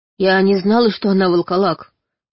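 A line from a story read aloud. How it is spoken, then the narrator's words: Plain. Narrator (Russian): зачем-то сказала я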